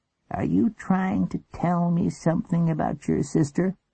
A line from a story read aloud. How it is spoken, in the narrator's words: He sighed